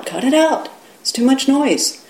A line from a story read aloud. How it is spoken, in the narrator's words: the fellow who lived next door called out